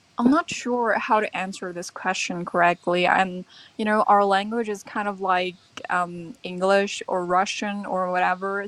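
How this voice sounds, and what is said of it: American English accent. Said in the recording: “where does this uh, American accent come from? ... my American accent.”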